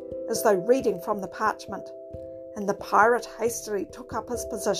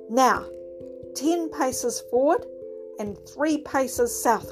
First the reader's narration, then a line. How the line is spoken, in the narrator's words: cried Jack